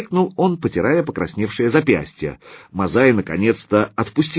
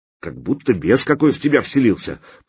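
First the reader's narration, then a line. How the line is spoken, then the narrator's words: Muttered. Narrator (Russian): пробормотал Ясень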